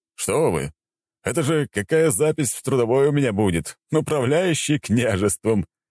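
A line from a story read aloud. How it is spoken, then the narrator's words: Chuckling. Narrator (Russian): хохотнул он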